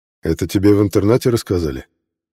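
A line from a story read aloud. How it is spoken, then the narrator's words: Gloomy question. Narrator (Russian): мрачно спросил черный старатель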